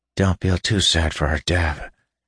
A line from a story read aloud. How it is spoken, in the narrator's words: Asha murmured